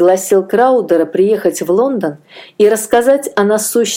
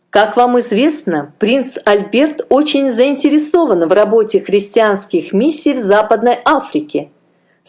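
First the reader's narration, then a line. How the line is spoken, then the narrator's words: Plain. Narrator (Russian): сказал он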